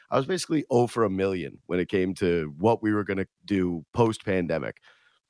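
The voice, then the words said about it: Strained, hoarse voice from illness. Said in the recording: “losing my voice. I'm sick.”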